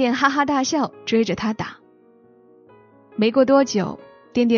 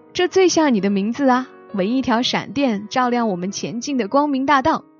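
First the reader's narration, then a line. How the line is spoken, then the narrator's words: Hearty laughter. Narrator (Chinese): 张鹤斌就哈哈大笑说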